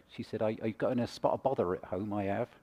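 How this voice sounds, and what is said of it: Put-on Somerset English accent. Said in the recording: “she had a Somerset accent, which goes something like this”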